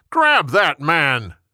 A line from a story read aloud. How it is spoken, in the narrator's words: Jeroboam yelled